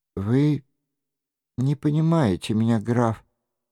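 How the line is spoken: Sad interruption. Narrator (Russian): печально прервала его Диана

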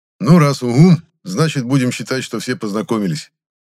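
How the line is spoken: Summing up. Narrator (Russian): подытожил Гудков

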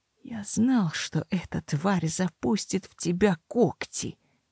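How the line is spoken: Quiet, clipped, informal. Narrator (Russian): негромко процедил он, вдруг оставив излюбленный формальный тон

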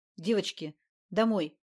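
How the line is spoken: Stern. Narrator (Russian): строго сказал

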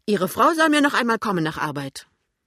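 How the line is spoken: Woman calling. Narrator (German): ruft die Frau

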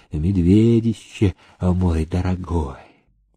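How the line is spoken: Tender whisper. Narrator (Russian): По лицу Александры Евтихиевны побежала ласковая улыбка, она прошептала

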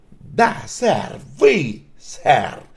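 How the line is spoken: Sharp reply. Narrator (Russian): резко ответил мистер Талли

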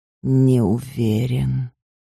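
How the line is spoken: Quiet answer. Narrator (Russian): тихо ответил он

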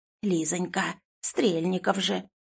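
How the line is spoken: Conspiratorial. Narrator (Russian): заговорщическим тоном

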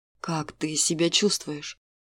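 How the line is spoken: Quiet question. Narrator (Russian): негромко спросил мужчина

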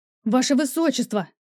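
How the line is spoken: Shout from behind. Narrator (Russian): кричал парень за спиной

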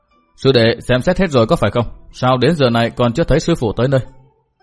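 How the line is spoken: Low stern voice. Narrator (Vietnamese): Cát Đạt Tố trong lòng cười nhạt thầm, trầm giọng nói

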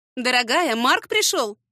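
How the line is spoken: Jubilant announcement. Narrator (Russian): ликующим тоном объявила мама

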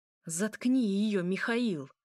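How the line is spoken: Angry hiss. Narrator (Russian): злобное шипение

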